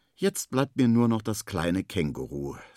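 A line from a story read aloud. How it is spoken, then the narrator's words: Sighing. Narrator (German): seufzt Henry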